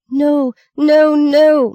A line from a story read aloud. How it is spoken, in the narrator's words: Maggie screamed